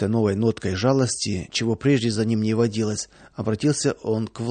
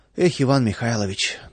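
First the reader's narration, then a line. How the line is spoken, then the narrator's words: Sighing. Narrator (Russian): только и вздохнул Владыкин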